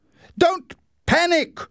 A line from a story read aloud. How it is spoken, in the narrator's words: shouted Leslie